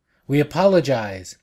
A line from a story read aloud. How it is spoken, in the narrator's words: screamed